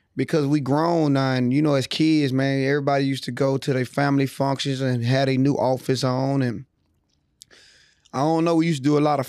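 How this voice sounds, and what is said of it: Raspy, worn-out voice. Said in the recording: “My voice is a little raspy. ... I ain't got no voice, y'all. I had a long weekend outside in the city.”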